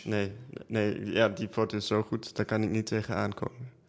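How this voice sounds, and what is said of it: German-like accent speaking Dutch. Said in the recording (Dutch): “je spreekt ook een beetje Duits. Achtig accent. ... Duits-achtig accent, ja.”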